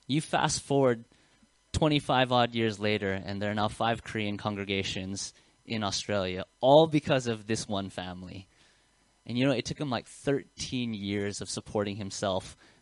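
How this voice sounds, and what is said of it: American accent. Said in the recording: “you can hear my accent. It's very Western. It's very American.”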